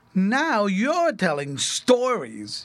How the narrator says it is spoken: jeered Jehoshaphat

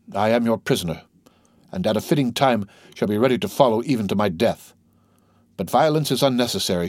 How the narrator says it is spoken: she coldly said

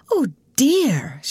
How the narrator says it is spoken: she exclaimed

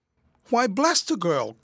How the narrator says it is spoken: cried boisterously

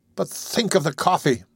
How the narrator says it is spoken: cried

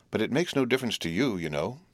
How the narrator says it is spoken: said Biddy, calmly

